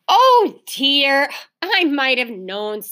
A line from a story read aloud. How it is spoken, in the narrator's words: sighed Mother